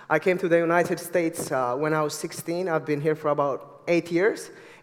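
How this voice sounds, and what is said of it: East African Ethiopian accent. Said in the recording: “you're already wondering where my accent is from... I'm from a beautiful country in East Africa called Ethiopia”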